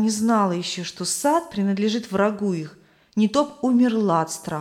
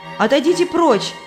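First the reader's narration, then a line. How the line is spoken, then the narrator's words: Shout. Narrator (Russian): крикнула Христиана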